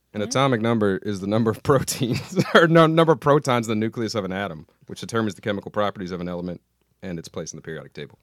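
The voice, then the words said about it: Imitates another person's voice. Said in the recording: “did a Bryan voice ... That's a really good impression ... Really good impression”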